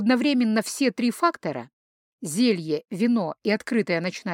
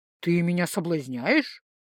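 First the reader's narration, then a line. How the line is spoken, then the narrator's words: Amused snort. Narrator (Russian): хмыкнул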